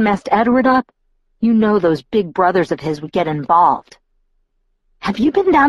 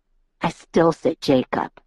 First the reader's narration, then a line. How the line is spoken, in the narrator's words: Mike muttered under his breath